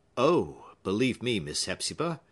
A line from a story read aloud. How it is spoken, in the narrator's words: said quietly